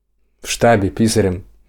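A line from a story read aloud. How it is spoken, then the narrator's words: Cheerful matching reply. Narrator (Russian): весело в тон ей ответил Петя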